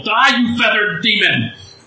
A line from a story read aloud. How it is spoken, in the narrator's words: hear somebody yell